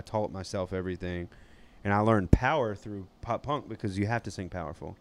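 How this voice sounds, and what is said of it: Southern Georgia twang. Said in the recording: “the southern twang just comes from the fact that I'm just from Georgia... or South Georgia”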